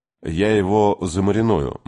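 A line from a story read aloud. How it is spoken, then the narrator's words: Grim promise. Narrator (Russian): мрачно пообещал Кей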